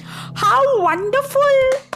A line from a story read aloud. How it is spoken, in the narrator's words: laughed Midas